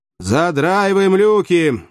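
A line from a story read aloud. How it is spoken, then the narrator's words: Loud command. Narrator (Russian): громко скомандовал бдительный филолог в казачьих погонах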